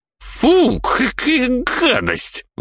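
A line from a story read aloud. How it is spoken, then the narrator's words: Exclamation. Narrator (Russian): воскликнула Миневра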